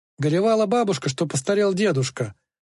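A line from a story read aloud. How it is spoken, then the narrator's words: Nervous laugh. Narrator (Russian): нервно засмеялся бронебойщик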